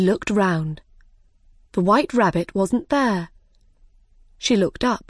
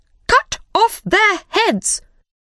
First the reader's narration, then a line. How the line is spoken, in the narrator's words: Suddenly, the Queen shouted very loudly